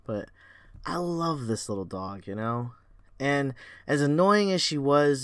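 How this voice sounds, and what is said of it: Choked up, emotional voice. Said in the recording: “I'm getting a little choked up ... if I drop out or crack on the podcast”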